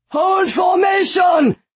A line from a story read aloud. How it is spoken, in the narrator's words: the man shouted